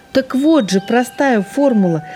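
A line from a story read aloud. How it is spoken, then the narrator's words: Owl exclaiming. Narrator (Russian): воскликнула сова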